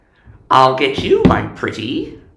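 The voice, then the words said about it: Wicked witch character voice. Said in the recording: “That was his witch voice ... it was a good witch voice.”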